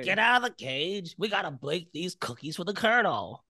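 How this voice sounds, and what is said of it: Chicago improviser character voice. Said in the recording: “my Chicago improviser impression”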